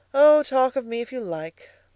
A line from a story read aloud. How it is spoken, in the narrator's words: cried Edna